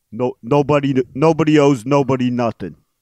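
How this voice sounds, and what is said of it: Poor Rocky impression. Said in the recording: “That is a poor Rocky impersonation. ... I can't do a good Rocky.”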